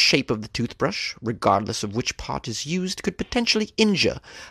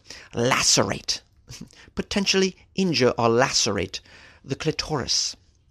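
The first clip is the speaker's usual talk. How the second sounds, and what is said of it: Put-on British English accent. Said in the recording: “it's fun to say with a British accent ... here's a great word that's when you say it with an English accent”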